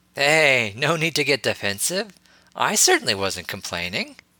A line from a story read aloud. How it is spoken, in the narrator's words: Harry grinned playfully